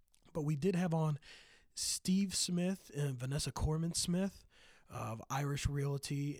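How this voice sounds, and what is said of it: Slightly scratchy voice. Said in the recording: “my voice is a little scratchy. Battling the back end of a cold”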